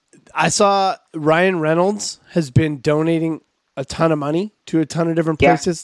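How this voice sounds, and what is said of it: Slightly hoarse, failing voice. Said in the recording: “I'm losing my voice a little bit.”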